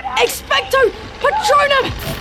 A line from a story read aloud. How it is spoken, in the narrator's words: Harry yelled